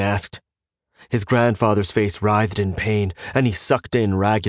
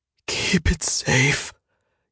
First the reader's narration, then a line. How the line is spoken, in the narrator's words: he gasped